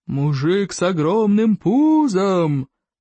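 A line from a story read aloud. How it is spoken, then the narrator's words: Roar. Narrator (Russian): проревел всадник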